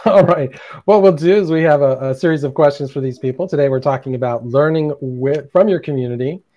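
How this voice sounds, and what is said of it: Hoarse, strained voice. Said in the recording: “as I lose my voice”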